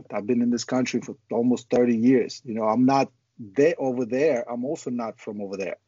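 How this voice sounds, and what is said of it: Speaker's own foreign accent. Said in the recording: “I have an accent.”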